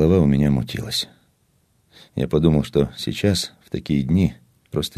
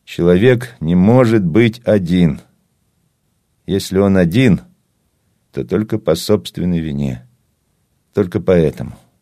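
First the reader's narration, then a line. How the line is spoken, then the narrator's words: Loud, filling empty room. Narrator (Russian): сказал громко на всю комнату, на всю пустую промерзшую дачу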